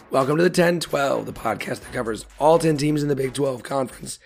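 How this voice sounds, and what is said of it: Voice sounds unwell. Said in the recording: “As you can tell from my voice, it might explain why we took the unplanned week off”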